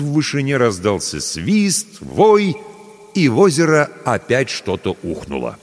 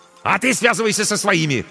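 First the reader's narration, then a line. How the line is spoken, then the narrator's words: Barked. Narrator (Russian): рявкнул ей Корнейчук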